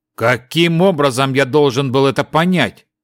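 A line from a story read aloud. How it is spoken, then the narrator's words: Irritated question. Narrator (Russian): раздраженно спросил Рунтан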